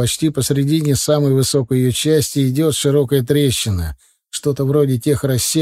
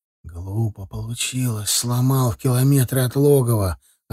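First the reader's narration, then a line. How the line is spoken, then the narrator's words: Quiet reply. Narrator (Russian): ответил тот так же тихо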